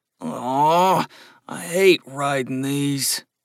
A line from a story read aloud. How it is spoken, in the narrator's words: Mark mumbled